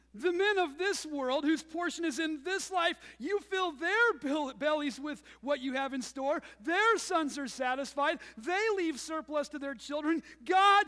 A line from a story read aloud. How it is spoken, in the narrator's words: she cried out